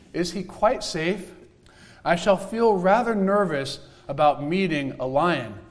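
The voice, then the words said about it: Little girl English accent. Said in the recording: “You have to imagine her little girl English accent.”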